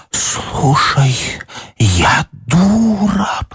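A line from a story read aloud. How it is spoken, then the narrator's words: Muffled whisper. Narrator (Russian): прошептала Даша в ее грудь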